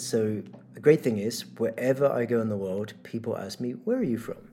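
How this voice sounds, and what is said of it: Mixed, hard-to-place accent. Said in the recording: “I have a very confused accent ... People assume Australia or some nowhere”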